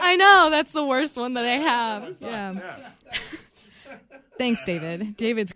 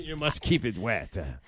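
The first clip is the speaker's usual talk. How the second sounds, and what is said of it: Poor put-on French accent. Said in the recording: “Pardon my horrible French accent.”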